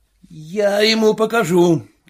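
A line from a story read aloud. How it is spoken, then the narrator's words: Shout. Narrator (Russian): крикнул Чернобородый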